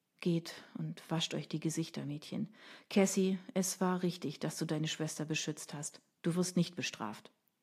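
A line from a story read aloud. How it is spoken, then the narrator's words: Quiet, choked up. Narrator (German): Er schluckte und sagte leise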